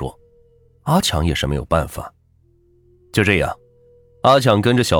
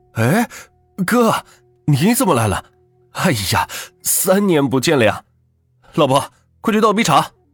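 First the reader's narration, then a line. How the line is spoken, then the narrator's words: Happy shout. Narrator (Chinese): 看到表哥在自己的家里，是高兴的喊道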